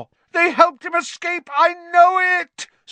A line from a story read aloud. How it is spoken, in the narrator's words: Snape howled